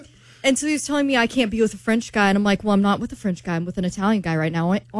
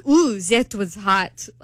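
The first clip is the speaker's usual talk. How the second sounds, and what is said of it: Bad put-on accent. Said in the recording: “that was a really bad accent.”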